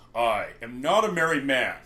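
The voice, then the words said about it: Imitation of Klingon character Worf. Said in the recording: “Do your Worf impression. ... That's really good. Well done.”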